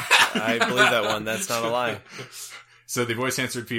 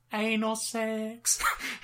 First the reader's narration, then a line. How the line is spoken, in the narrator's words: a voice answered feebly